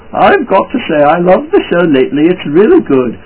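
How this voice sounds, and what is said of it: Funny put-on voice. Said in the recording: “I'll just say it in a funny voice.”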